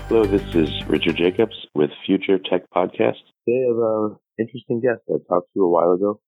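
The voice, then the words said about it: Slightly raspy voice. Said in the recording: “Besides being a little raspy”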